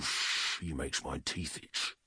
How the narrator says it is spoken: Luhio said quietly

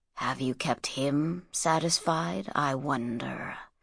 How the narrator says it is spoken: whispered Sheftu

